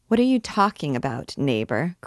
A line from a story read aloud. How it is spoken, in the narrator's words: cried Gervaise